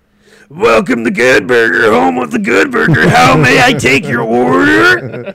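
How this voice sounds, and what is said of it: Imitates a TV character's voice. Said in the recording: “do like the impersonation”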